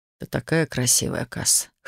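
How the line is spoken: Hoarse whisper. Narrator (Russian): хрипло прошептал он

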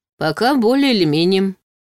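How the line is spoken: Gloomy statement. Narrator (Russian): мрачно констатировал Ваня

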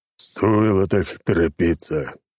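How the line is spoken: Sighing. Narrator (Russian): вздохнул Черномор

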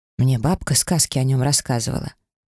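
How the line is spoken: Lost, deflated sigh. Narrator (Russian): потерянно вздохнула Гара, как-то разом утратив всю свою воинственность

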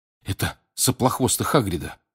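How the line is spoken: Whisper. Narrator (Russian): прошептал

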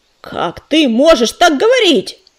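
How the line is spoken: Growl. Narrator (Russian): прорычал Уголек

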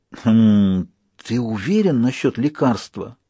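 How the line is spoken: Whispered question. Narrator (Russian): шепотом спросил доктор Хопкинс

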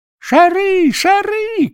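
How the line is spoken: Delighted kitchen boys shouting. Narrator (Russian): кричали поварята в восторге

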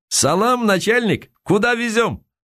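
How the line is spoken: Shouting. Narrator (Russian): Он крикнул

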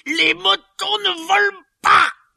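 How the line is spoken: Shouting. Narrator (French): hurla-t-il

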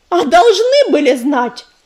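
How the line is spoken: Sharp rebuke. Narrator (Russian): прикрикнула на друга Яролика

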